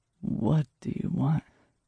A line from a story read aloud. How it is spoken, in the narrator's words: He asked softly